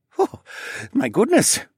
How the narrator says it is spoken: he chuckled

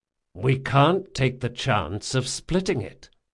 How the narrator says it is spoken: said Jean, his voice reasonable and controlled in just the fashion that told Locke he was ready for instant action

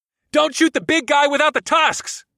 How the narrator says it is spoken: I shouted to Nylame

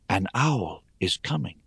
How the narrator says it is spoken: a quiet voice within me whispered

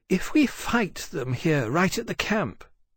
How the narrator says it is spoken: Hosaitia said thoughtfully

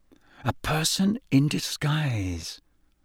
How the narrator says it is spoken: Harry muttered

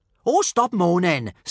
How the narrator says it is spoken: snapped Kamikaze

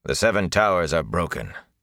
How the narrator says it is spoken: Lan said harshly

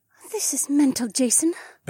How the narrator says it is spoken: Becca muttered

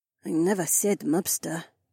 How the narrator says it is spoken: the Korean muttered

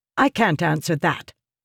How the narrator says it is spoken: Yasna snapped

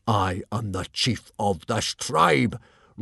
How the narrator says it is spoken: roared Stoic the Vast

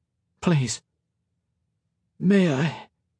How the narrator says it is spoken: She coughed, and her voice was weak

